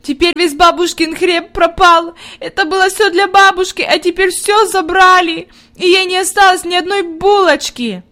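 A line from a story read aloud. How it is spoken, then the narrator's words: Inconsolable sobbing. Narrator (Russian): Она рыдала так, что казалось, нет ей никакого утешения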